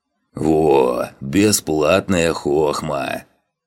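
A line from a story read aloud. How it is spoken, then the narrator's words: Purring voice from behind. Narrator (Russian): Непередаваемым, каким-то урчащим голосом донеслось из-за спины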